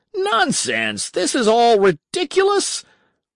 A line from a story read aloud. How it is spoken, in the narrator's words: Berg shouted at him